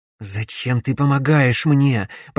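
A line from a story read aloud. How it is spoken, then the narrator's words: Hissing. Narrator (Russian): прошипел Алекс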